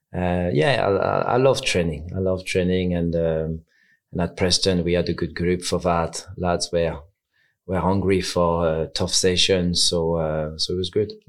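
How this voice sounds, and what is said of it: French accent in English. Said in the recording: “He hasn't lost his accent, has he? ... I sound French. ... Yeah, you do.”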